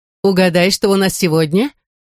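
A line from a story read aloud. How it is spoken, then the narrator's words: Cheerful. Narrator (Russian): весело продолжила Бану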